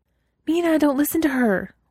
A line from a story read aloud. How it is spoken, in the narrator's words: Weiwei said urgently